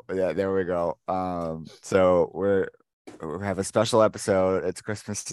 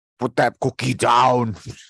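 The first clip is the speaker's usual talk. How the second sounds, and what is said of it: Put-on Austrian accent. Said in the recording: “Can I do an Austrian accent? ... We all got an Arnold.”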